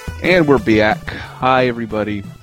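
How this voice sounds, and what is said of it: Poor put-on Minnesotan accent. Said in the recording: “like a Minnesotan ... That wasn't a very good Minnesota accent.”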